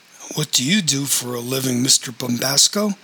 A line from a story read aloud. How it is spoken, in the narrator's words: said Reverend Cooley